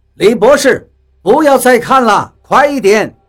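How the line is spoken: Shouting. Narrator (Chinese): 比利在喊我们

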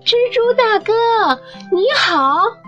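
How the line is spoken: Louder, polite greeting. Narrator (Chinese): 蹦豆重新叫了起来，并放大了声音

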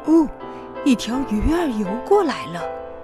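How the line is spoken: Soft old man. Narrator (Chinese): 爷爷轻声说着

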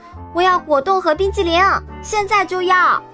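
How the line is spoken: Shrill scream. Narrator (Chinese): 金发姑娘尖叫道

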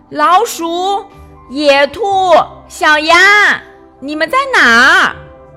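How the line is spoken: Loud call. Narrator (Chinese): 他大声叫道

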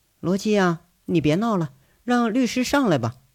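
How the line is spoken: Cold voice from upstairs. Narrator (Chinese): 二楼上传来了韩雪冷冷的声音

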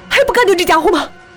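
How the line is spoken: Terrified shout. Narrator (Chinese): 紫藤惊恐的喊道

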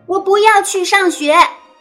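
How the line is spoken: Angry yelling. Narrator (Chinese): 露露大吼

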